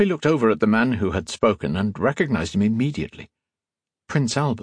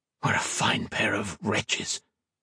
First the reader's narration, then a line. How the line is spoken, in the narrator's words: whispered